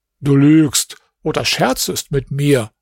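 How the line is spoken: Plain. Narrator (German): sagte der König

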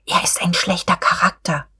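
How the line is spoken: Whisper. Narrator (German): Frau von Wulkow wisperte

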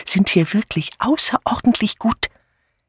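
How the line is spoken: Conspiratorial whisper. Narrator (German): vertraute Miss Banner mit konspirativem Flüstern Miss Marple an

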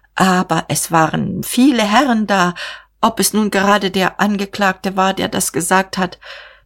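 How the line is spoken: Stammering. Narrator (German): stammelte er

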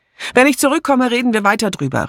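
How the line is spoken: Shouted. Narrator (German): rief sie

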